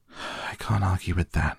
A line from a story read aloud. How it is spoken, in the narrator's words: I sighed